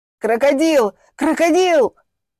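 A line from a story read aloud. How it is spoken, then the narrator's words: Frantic screaming. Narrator (Russian): истошно завопил Влад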